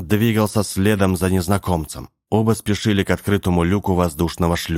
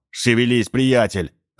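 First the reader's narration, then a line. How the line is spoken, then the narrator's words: Irritated reply. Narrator (Russian): раздраженно отозвался тот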